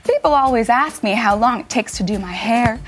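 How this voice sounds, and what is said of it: Fake accent. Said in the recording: “my fake accent”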